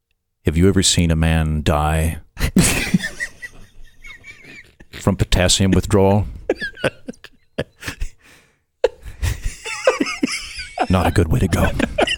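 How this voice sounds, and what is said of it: Deep, ominous imitated voice. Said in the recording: “my Glenn Beck impression ... It needs to be deep, ... a little ominous”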